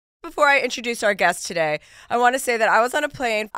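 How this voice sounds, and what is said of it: Sick, slightly changed voice. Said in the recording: “you were a little under the weather, so just so people know, that's why your voice sounds a little different”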